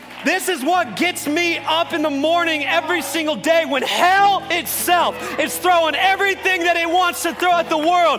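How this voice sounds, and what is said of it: Passionate shouting. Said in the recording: “I'm shouting like this right now, not because I'm angry, but because I'm in passion.”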